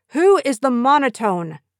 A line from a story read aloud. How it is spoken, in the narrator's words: the choir master abruptly stopped us and called out